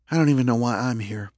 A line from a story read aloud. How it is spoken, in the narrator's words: she said quietly